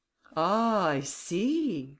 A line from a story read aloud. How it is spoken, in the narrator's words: exclaimed Grimaudan